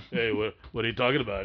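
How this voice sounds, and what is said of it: Working-class Italian-American tough-guy voice. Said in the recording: “Why do you all of a sudden Sylvester Stallone? ... That's the one accent you have on the wheel. ... hardworking, working class Italian guys”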